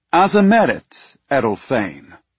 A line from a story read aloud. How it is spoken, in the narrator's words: he said, his voice smooth and strong